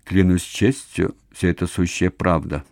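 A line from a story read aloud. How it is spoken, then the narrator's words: Muttering. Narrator (Russian): пробормотал он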